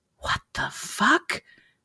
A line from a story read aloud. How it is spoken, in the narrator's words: Julie whispered